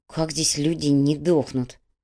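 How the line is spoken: Through gritted teeth. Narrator (Russian): процедила Майя

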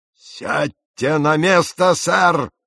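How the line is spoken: Loud roar. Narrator (Russian): взревел он столь громко, что его, наверное, и мистер Кристиан услышал

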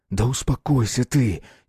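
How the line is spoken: Rebel's angry whisper. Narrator (Russian): сердито прошептал повстанец

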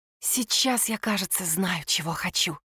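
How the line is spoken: Whisper. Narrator (Russian): прошептала она

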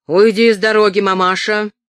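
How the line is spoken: Impatient shout. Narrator (Russian): крикнул он, подпрыгивая от нетерпения

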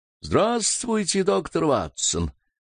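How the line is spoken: Very cheerful exclamation. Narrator (Russian): воскликнул необыкновенно весело

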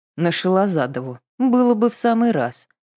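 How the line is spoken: Grumbling. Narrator (Russian): проворчал Алексей

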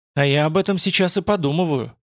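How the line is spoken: Sharp. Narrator (Russian): сказала резко

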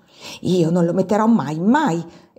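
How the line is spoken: Tearful exclamation. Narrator (Italian): esclamò Giulia quasi con le lacrime agli occhi

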